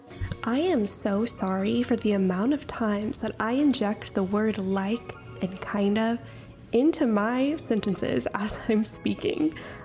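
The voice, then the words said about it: American Valley girl accent. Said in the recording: “if you're not from the American Valley, you probably find me so annoying. Yes, I have a very bad Valley girl accent ... when I get excited, it just comes out”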